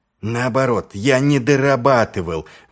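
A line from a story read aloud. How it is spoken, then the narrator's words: Exclaiming. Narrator (Russian): воскликнул Ваймс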